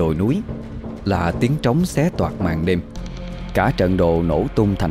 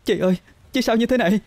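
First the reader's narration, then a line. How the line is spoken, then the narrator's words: Hoarse, uncontrollably trembling voice. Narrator (Vietnamese): Thanh Vân giọng cô trở nên khản đặc, run rẩy không sao kiểm soát được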